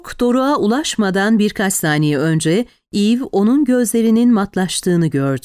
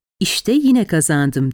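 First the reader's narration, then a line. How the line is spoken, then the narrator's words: Plain. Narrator (Turkish): dedi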